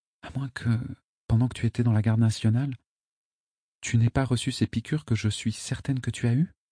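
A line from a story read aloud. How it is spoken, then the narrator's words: Murmured. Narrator (French): murmura-t-elle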